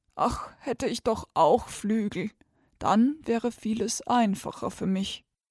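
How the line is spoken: Frog's sigh. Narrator (German): Der Frosch seufzte

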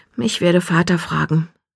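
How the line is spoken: Murmur with a sigh. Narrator (German): murmelte sie und seufzte

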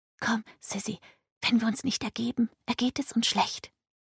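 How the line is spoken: Fearful whisper. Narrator (German): machte einen ängstlichen Eindruck und flüsterte

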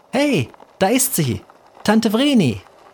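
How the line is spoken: Calling out. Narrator (German): Elisabeth rief

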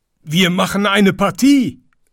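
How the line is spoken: Animals calling together. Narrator (German): rief alles Vieh

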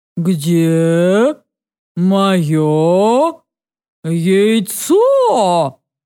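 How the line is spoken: Slow grim roar. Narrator (Russian): Медленно и мрачно проревела она

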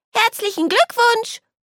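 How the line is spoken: Calling out. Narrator (German): ruft

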